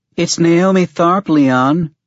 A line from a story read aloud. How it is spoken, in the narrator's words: the woman called out to me